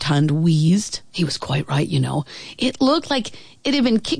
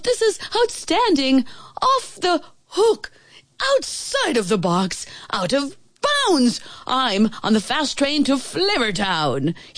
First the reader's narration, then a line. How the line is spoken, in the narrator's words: he roared